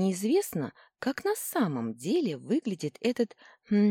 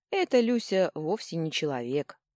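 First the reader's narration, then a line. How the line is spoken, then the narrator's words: Sighing. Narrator (Russian): вздохнул Семенов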